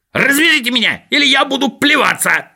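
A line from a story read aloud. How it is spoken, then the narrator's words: Screaming. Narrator (Russian): завопил Скуперфильд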